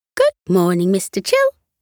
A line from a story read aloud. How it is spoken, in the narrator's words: she greeted him cheerfully